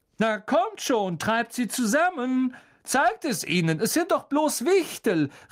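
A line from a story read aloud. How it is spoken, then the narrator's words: Shouted. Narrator (German): rief Lockhart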